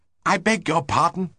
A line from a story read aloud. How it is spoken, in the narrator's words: said breathlessly